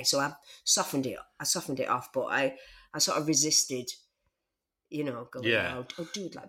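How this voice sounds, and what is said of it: Bolton working-class Northern English accent. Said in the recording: “I'm a working class girl from Bolton. So, I, you know, not my accent probably gives that away.”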